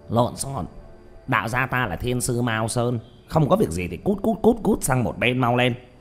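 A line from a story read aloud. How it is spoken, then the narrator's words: Sharp shout, old man. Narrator (Vietnamese): Lão đạo sĩ quát lên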